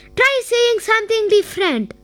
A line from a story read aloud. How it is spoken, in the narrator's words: Pico quickly shouted